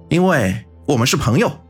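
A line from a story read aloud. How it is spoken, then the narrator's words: Loud. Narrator (Chinese): 方寸大声的说道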